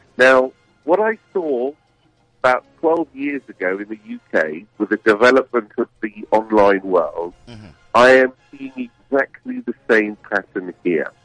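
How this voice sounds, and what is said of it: British accent. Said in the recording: “my accent isn't a local one ... I moved over from the UK”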